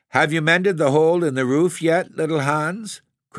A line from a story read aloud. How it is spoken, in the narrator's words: cried the miller in a cheery voice